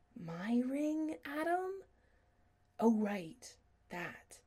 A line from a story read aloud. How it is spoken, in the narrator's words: Chris whispered